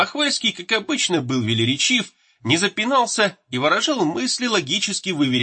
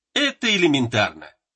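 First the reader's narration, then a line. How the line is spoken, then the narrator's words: Forced laugh. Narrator (Russian): Николай засмеялся, но как-то с натугой, не от души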